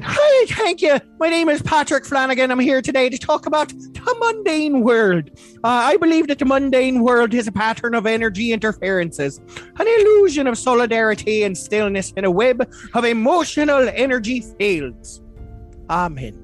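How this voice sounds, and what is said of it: Put-on Irish accent. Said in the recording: “I'm going to read that again, but with an Irish accent.”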